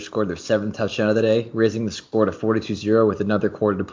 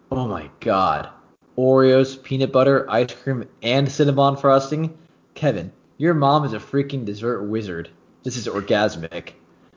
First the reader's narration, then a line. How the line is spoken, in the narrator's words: Brian exclaimed